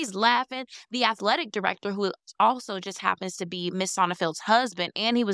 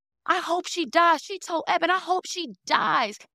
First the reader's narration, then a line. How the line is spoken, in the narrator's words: jumping up and down, yelling